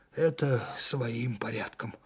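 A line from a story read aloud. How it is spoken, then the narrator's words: Tired. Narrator (Russian): устало сказал майор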